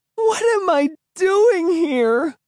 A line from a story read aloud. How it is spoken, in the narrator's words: She cried